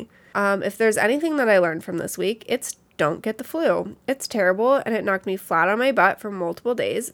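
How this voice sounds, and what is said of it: Sick, funny-sounding voice. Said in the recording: “my voice sounds really funny”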